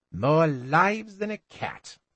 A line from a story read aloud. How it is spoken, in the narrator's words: said sneeringly